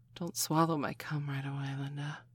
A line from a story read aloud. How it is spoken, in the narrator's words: she said, half-whispered breathlessly